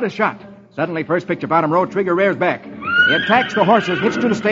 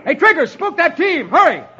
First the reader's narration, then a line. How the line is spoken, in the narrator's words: yells